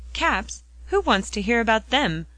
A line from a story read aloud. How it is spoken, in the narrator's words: cried Mrs